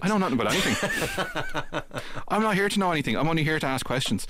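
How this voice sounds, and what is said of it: Northside Dublin Irish accent. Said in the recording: “me Northside Dublin accent”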